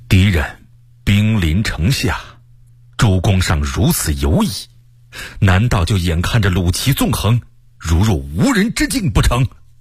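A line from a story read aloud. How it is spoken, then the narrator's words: Stern, angry. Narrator (Chinese): 卢象升大为生气，厉声说道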